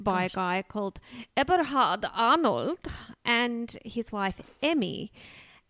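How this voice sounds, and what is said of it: Poor put-on German accent. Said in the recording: “That wasn't a very good German accent”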